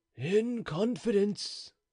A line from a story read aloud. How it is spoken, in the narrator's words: said he in a low voice